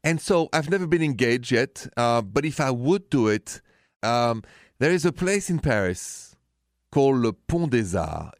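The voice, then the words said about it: Thick French accent. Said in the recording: “You know I'm French. This accent is thick enough.”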